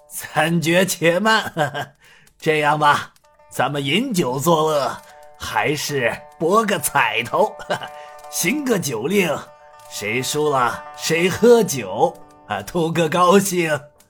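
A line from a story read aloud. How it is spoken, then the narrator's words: Laughing. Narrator (Chinese): 太师张全笑道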